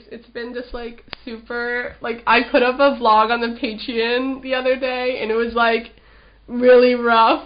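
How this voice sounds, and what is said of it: Sick, congested voice. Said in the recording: “I've been quite sick as well. You can probably hear it in my voice ... why do you sound like you're about to, like, snot all over my face?”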